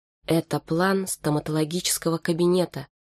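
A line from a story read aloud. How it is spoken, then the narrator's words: Very quiet, lifeless. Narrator (Russian): сказала Саша очень тихо, но не потому, что боялась себя обнаружить, а потому что ее голос лишился жизни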